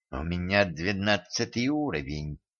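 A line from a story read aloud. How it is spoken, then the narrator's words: Hiss. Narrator (Russian): прошипела девица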